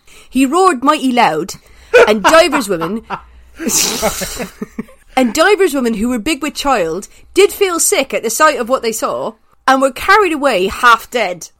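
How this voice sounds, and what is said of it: Put-on old-fashioned West Country accent. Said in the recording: “a kind of a ye olde kind of accent? Which is going to be a West Country ... the West Country accent”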